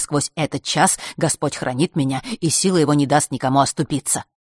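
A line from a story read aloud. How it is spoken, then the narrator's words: Rapid patter near ear. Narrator (Russian): протараторил кто-то над ухом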